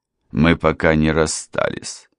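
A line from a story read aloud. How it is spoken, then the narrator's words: Dry remark. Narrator (Russian): сухо заметил адвокат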